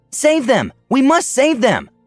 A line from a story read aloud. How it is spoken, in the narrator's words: Onyxia declared hotly